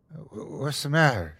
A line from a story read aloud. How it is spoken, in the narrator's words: she mumbled